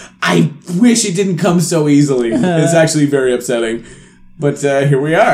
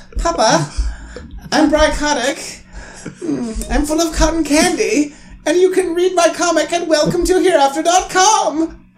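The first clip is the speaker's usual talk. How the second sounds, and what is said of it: Sleepy young boy character voice. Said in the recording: “the sleepy young boy in the backseat of the car said ... Do that voice all the time, please.”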